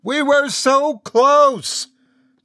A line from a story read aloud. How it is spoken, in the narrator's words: continued to scream